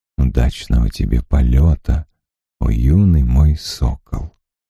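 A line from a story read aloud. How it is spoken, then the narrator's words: Very quiet farewell. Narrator (Russian): Агион сказал, но так тихо, что Гед услышать не мог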